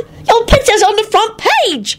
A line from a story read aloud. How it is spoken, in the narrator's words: Teddy squealed excitedly